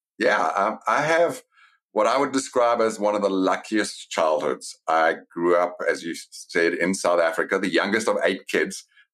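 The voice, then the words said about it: South African accent. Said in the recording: “I know you grew up in South Africa. That's from the accent straight away.”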